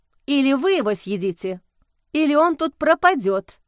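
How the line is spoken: Stern. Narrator (Russian): строго сказала Лиза

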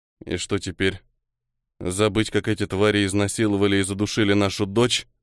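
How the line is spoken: Through gritted teeth. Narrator (Russian): Сквозь зубы процедил Михаил

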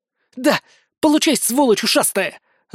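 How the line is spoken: Joyful scream. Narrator (Russian): Радостно завопила Торви

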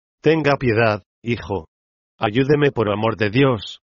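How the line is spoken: Frightened exclamation. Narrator (Spanish): exclamó asustada

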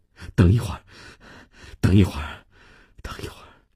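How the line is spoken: Out of breath. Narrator (Chinese): 米娜停下来喘了口气

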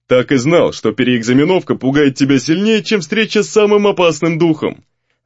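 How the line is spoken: Laughing, big man. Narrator (Russian): Здоровяк рассмеялся

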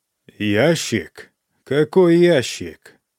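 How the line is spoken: Growl from dead lips. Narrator (Russian): прорычали мертвые губы императрицы

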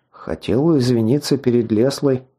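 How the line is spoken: Embarrassed mumble. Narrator (Russian): смущенно пробормотал

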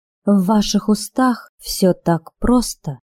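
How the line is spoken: Uncertain drawl. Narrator (Russian): неуверенно протянула Анна

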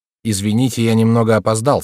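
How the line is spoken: Calm greeting. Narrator (Russian): спокойным тоном приветствовал он присутствующих

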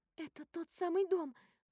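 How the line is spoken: Excited whisper. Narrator (Russian): взволнованно шепчу я

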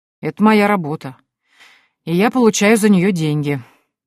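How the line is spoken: Grumbled. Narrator (Russian): проворчал Олаф Битсон

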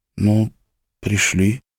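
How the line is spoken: Hesitant agreement. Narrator (Russian): неуверенно согласилась Орли

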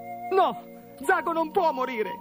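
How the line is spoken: Shouted. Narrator (Italian): gridò Gorgo

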